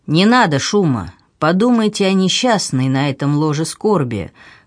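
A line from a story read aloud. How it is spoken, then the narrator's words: Good-naturedly mocking. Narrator (Russian): продолжал доктор добродушно насмешливым тоном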